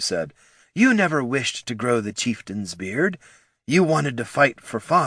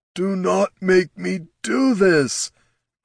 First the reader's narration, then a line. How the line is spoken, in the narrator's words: groaned Darek